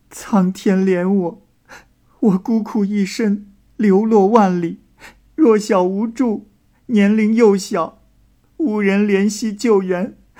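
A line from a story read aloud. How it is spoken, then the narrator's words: Wailing, sobbing loudly. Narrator (Chinese): 这义哥是嚎啕大哭的说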